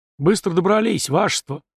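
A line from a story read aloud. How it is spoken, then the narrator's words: Sighing. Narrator (Russian): вздохнул Фома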